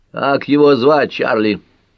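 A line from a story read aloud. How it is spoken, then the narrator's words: Barking into phone. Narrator (Russian): рявкнул инспектор в трубку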